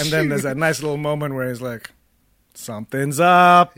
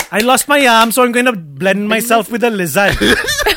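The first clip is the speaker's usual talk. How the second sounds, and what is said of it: Put-on Welsh accent. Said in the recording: “Can you imagine the lizard having a Welsh accent?”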